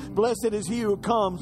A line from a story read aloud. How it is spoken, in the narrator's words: shouting